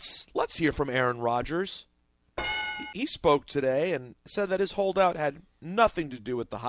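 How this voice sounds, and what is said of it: Usual voice. Nothing is said of it.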